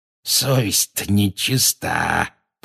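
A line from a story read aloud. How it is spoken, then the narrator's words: Wheezing. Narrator (Russian): просипел он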